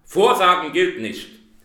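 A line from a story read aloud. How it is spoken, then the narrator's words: Gruff, harsh. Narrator (German): sagte der Weihnachtsmann barsch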